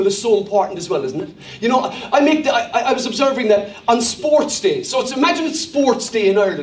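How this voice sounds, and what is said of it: Usual voice. Nothing is said of it.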